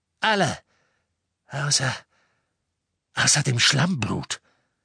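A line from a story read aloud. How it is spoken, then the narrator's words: Gleeful grunt. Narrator (German): Greyback grunzte vor Freude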